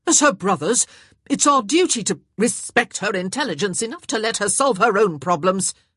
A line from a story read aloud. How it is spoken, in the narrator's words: Violet snapped